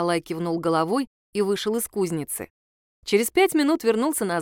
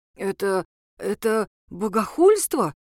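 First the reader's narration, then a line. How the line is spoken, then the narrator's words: Breathed out. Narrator (Russian): выдохнул Николай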